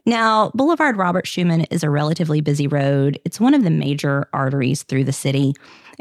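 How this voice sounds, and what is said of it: American Southern accent. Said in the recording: “my French with my southern accent.”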